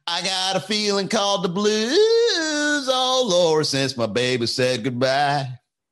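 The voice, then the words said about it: Sung with a put-on country twang. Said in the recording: “trying to hit this twang, right? Oh, it's embarrassing.”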